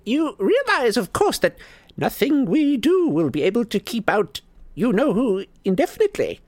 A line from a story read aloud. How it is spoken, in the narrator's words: squeaked Flitwick